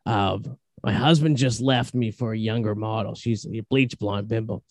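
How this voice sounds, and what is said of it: Raspy older smoker's voice. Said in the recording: “I've been smoking cigs since I was 15. You can tell by my voice.”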